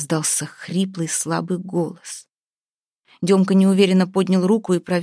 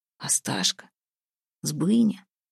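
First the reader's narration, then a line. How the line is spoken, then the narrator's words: Hoarse wheeze. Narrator (Russian): прохрипел Демка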